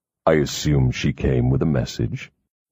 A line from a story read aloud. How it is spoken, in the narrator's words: he said coldly